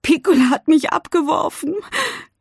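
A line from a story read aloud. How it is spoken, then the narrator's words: Sobbing. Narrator (German): schluchzt sie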